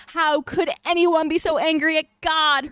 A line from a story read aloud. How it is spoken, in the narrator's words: Hermione sobbed